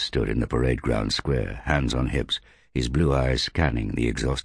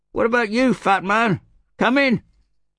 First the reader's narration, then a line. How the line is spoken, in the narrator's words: someone yelled from the crowd